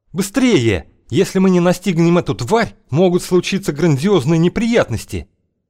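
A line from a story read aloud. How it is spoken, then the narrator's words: Yelled. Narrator (Russian): Окш заорал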